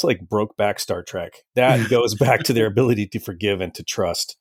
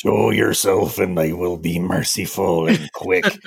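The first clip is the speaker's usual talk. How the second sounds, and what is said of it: Gorn impression. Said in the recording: “great Gorn impression”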